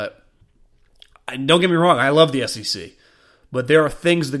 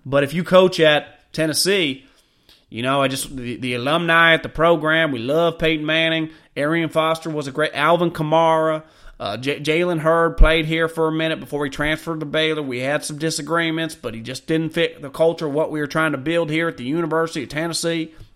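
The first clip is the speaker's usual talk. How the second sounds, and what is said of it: Put-on Southern US accent. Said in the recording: “This is the way you talk, which I love. I love doing a Southern accent”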